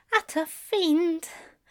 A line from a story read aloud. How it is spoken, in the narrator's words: says feebly